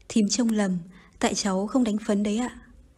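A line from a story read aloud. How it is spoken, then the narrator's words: Smiling reply. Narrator (Vietnamese): Nga mỉm cười đáp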